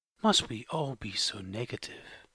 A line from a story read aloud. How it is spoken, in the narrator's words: Lacey Eve, she sighed and said